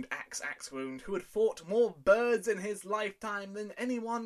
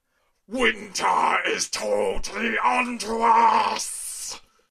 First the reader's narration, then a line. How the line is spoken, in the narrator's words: shouted the king